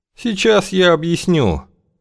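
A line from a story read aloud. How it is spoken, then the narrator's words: Tired serpent voice. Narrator (Russian): произнес змей усталым голосом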